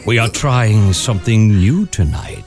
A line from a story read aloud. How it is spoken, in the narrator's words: purred in my ear